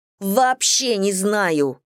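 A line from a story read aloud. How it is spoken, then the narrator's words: Roaring. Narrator (Russian): взревела я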